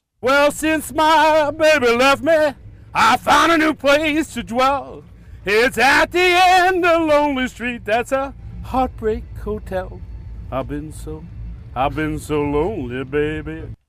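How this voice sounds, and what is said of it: Singing imitation of a famous singer. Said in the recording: “did an Elvis impression. I don't know if this is a good impression ... It isn't bad”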